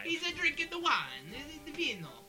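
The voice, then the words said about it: Bad fake Italian accent. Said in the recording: “Sorry for our terrible Italian accents.”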